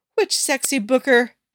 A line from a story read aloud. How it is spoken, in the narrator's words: June laughs